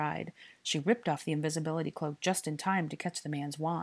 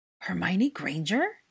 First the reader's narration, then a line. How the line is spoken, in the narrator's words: he gasped in surprise